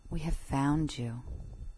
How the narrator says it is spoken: they whispered only

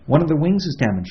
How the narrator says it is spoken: she said quickly

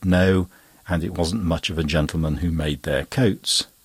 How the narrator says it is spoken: Lupin, with a laugh, replied

